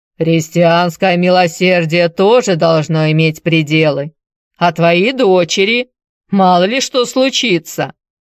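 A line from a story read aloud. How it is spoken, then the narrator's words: Disapproving giant's deep bass. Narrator (Russian): великан осуждающе пробасил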